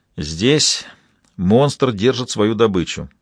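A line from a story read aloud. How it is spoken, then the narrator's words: Gloomy writer. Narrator (Russian): мрачно сказал писатель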